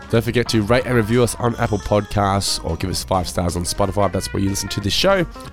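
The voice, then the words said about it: Hoarse, strained voice. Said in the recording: “I'm losing my voice here. I'm struggling through.”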